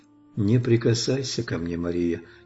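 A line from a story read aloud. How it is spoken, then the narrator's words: Quiet speech, the Lord. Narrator (Russian): тихо сказал ей Господь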